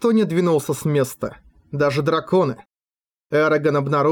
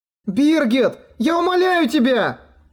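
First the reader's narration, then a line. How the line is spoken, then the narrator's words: Shout. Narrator (Russian): крикнула Катрина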